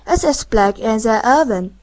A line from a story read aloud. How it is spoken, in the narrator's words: From time to time one of the drinkers exclaimed